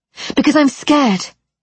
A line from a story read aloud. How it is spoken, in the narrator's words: I blurted